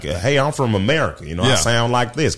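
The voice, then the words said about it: Exaggerated country American accent. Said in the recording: “an American accent ... It sounds country.”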